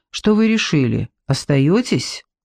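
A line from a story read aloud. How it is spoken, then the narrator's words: Seemingly calm question. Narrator (Russian): Зоя спрашивала вроде бы спокойно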